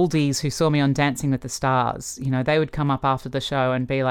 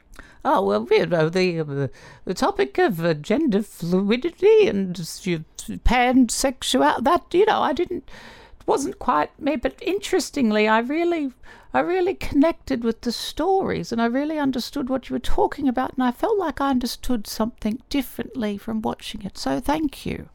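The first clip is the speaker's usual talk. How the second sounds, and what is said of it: Imitates another person's voice. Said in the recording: “That sounds like an impression of ... That's where you nailed that one.”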